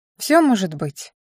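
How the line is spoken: Quiet, embarrassed reply. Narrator (Russian): отозвалась я негромко, порядком смущенная его взглядом

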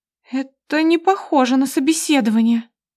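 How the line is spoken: Trembling voice. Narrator (Russian): произношу дрожащим голосом

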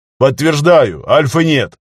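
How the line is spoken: Shout. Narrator (Russian): крикнул Костя

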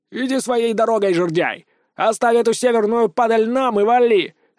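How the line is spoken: Barked. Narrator (Russian): рявкнул один из китайцев

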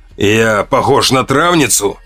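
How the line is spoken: Barked, forced gruffness. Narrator (Russian): рявкнул он, пытаясь вернуть привычную грубость

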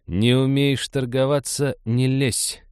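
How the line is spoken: Deliberately loud hiss. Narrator (Russian): нарочито громко прошипела Молли

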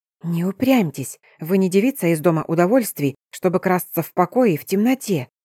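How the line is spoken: Instructive whisper, maid. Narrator (Russian): наставительным тоном прошептала моя служанка

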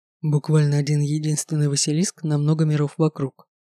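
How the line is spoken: Dragon's snort. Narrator (Russian): хмыкнул дракон

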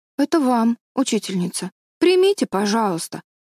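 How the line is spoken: Timid. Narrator (Russian): робко произнес он

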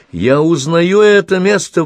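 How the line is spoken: Sudden shout. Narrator (Russian): вдруг прокричала Аманда

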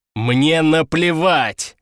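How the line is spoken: Bark. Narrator (Russian): рявкнул Александр

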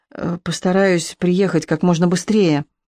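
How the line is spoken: Strained, forced out. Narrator (Russian): ей удается выдавить

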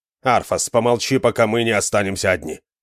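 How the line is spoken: Sharp interruption. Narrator (Russian): резко оборвал его Реза

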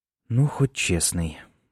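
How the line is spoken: Sigh. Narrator (Russian): вздохнула она

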